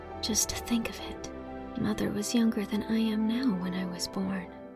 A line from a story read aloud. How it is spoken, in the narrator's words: she whispered